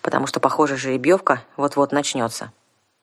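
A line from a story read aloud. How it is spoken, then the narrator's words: Gloomy advice. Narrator (Russian): мрачно посоветовал я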